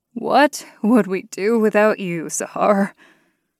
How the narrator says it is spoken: Kristoff breathed, trying to catch his breath

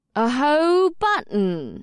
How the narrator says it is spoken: Amrila drawled sarcastically

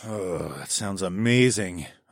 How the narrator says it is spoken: I groaned

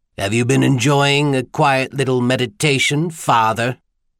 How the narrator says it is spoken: His sneer turned the clerical title into an obscenity

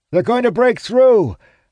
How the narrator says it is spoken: I shout over the deafening sound of the ram

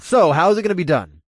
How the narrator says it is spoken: I blurted out, and I tried to make myself sound scared

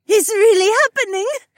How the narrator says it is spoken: Heiwan squealed

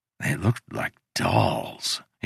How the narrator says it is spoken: whispered

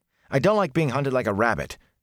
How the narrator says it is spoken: Matt snapped

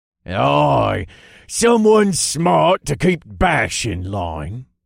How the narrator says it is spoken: Jax growled

